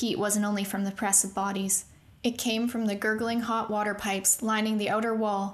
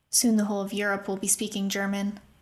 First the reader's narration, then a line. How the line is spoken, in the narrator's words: another said bitterly